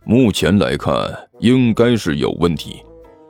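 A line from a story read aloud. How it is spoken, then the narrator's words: Low question. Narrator (Chinese): 还真道士 低声问道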